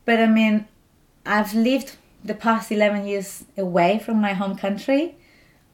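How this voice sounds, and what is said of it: Strong foreign accent. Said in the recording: “I have a strong accent.”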